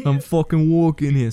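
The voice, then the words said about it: Put-on New York accent. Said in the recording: “involves the New York accent”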